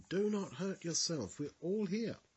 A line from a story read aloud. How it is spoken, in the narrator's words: Paul cried with a loud voice, saying